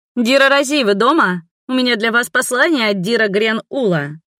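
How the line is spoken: Loud shout. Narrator (Russian): громко крикнула я

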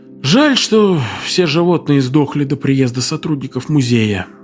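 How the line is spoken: Sighing. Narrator (Russian): вздохнул Турстон

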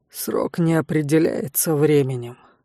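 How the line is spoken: Lazy. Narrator (Russian): лениво сообщил незнакомый рейзер

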